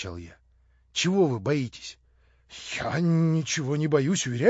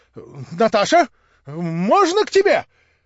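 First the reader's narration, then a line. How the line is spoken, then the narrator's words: Forced bold cry. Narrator (Russian): вскрикнул он с какой-то выделанной смелостью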